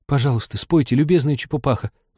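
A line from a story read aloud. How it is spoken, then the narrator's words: Fervent pleading. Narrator (Russian): взмолилась Аня так горячо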